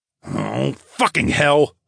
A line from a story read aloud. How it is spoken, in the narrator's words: I grumbled